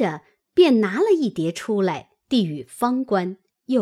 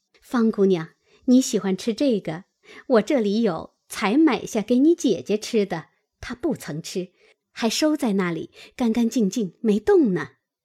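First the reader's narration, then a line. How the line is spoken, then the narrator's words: Eager cheerful. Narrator (Chinese): 柳家的忙笑道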